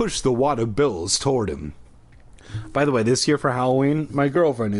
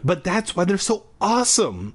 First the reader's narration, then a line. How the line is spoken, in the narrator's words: I exclaimed